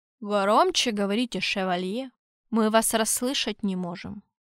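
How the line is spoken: Deep-voiced cardinal. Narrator (Russian): пробасил кардинал

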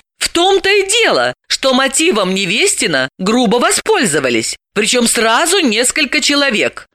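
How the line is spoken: Perked-up exclamation. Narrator (Russian): Поникшая была Далила оживилась, воскликнув

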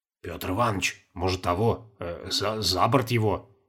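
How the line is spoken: Whispering. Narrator (Russian): зашептал Чертанов

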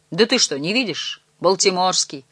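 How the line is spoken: Plain reply. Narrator (Russian): ответил Дэн

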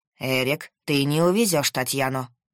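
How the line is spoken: Menacing. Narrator (Russian): грозно сказал мужчина

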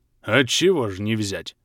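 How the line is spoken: Booming rumble. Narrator (Russian): прогудел Грим

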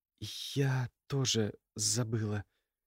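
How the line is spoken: Quiet, embarrassed. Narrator (Russian): тихо произнесла Ульяна, слегка покраснев

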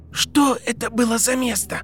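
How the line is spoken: Hoarse question. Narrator (Russian): хрипло спросил Гарри

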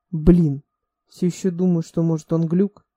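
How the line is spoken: Wheezy but good-natured. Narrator (Russian): Голос Аарона хрипел, как продырявленный шланг, но все равно источал благодушие

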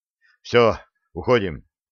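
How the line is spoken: Relieved exhale. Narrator (Russian): с облегчением выдохнул Андрей

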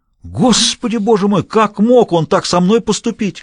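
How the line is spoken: Bitter outcry. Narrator (Russian): горько выкрикнул

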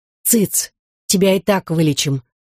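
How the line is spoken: Angry whisper. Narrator (Russian): злым шепотом сказал Алексей

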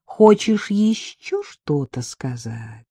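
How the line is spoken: Insinuating question. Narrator (Russian): вкрадчиво спросила Вика

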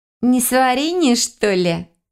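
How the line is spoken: Snide drawl. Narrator (Russian): ехидно протянула одногруппница

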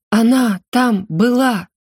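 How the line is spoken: Strained, anguished voice. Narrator (Russian): надрывным голосом выдавила я

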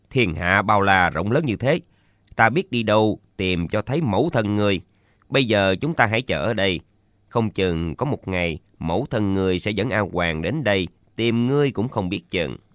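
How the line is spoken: Cold reply. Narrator (Vietnamese): Tạ Yên Khách lạnh lùng đáp

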